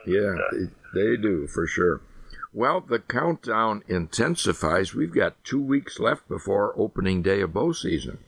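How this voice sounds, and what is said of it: Worn-out, rough voice. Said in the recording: “my voice has kind of gone to pot here this week”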